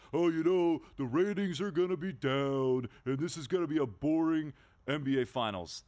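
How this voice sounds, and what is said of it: Mocking dim-witted voice. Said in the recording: “great impersonation of somebody ... That's my moron voice.”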